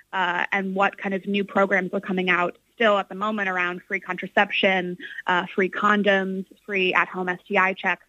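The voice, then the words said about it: American accent. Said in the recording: “going by your accent, it's American there, obviously”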